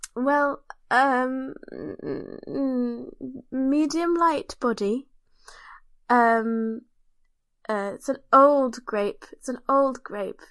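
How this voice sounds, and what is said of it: Mock wine-tasting opinion voice. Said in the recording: “I made lots of wine opinion noises ... You do a one opinion impression for me now?”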